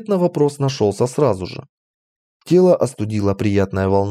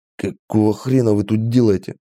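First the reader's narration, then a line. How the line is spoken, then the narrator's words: Hoarse rasp. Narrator (Russian): прохрипел я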